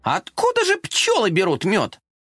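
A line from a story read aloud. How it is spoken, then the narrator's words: Curious exclamation. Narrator (Russian): Любопытный коржик воскликнул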